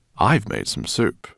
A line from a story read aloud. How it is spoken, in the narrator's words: he said